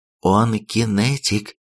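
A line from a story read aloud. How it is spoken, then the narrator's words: Commander whispering. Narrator (Russian): прошептала командир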